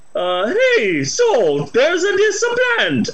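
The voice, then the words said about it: Put-on Italian accent. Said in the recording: “an Italian scientist wrote a scientific paper ... I don't know if I can sustain that accent.”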